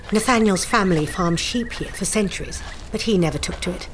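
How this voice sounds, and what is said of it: Southern English accent. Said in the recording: “your accent. You're a southerner, I mean, like me.”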